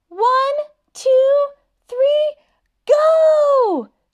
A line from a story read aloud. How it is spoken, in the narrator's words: Daniel and Prince Wednesday shouted